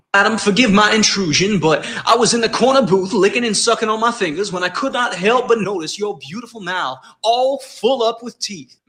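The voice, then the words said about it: Southern gentleman character voice. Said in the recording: “a Southern gentleman... his impression of what happens when a Southern gentleman is simply taken by you”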